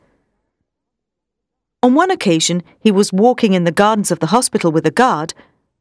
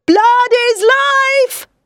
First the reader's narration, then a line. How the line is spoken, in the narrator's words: he screamed